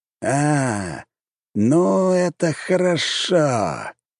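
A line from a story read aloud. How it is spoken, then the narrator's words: Drawled, older mage. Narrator (Russian): протянул старший маг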